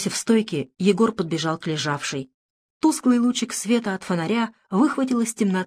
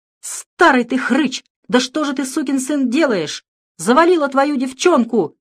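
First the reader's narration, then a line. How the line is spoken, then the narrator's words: Foreman shouting. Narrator (Russian): закричал бригадир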